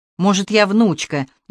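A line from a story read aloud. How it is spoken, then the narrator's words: Snapped back. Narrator (Russian): Инна огрызнулась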